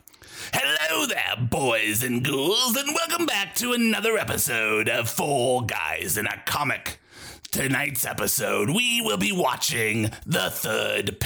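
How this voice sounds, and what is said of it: Ghoulish Crypt Keeper-style horror host voice. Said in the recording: “in your best goon voice, a Crypt Keeper, John Cassier style, not John Cassier in his voice, but in your goon voice,”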